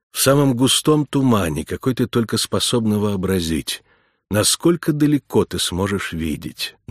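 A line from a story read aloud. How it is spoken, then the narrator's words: Plain. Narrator (Russian): наконец спросила она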